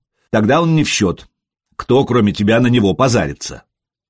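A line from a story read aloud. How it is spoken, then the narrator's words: Snorting. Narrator (Russian): Простен хмыкнул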